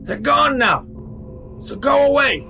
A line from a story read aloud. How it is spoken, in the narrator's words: he yelled